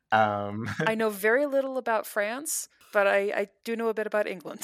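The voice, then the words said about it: American accent. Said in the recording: “the rogue American accent”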